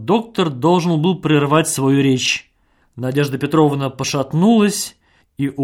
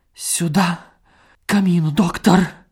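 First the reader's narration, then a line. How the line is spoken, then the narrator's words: Whispered. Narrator (Russian): шептала она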